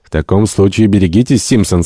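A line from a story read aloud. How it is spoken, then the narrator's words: Plain. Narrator (Russian): сказал боцман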